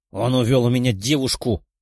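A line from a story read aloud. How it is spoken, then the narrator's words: Angry growl. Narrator (Russian): со злостью на лице прорычал Гера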